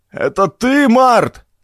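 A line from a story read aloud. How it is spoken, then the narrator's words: Shouted from above. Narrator (Russian): прокричал сверху Хэс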